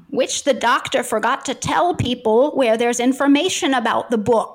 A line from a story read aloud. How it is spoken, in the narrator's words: whined Killick